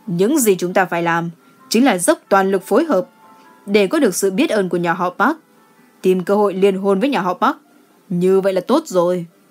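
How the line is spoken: Cold laugh. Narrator (Vietnamese): Gu Chi Yong cười lạnh lùng nói

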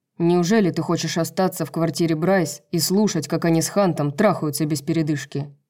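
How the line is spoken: Snorting. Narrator (Russian): Итан хмыкнул

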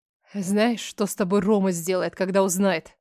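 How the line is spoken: Terrified, through gritted teeth. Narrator (Russian): Сквозь зубы процедила умирая от страха

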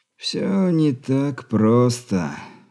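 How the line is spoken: Weary sigh. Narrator (Russian): устало вздохнул

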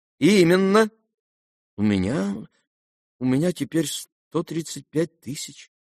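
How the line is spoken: Embarrassed mutter. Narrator (Russian): пробормотал князь, закрасневшись

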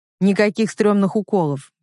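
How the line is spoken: Curt. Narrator (Russian): бросает он

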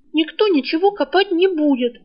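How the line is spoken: Indignant interjection. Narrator (Russian): возмущенно вмешалась Рыска

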